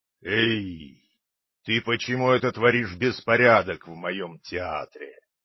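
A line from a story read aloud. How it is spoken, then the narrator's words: Hoarse, terrifying roar. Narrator (Russian): заревел на Пиноккио хозяин охрипшим страшным голосом людоеда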